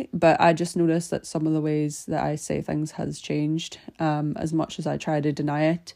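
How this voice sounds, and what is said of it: Northern Irish accent, slightly Scottish. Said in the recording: “I am Irish. I'm originally from a small city in Northern Ireland called Derry ... my accent has definitely gotten a wee bit more Scottish”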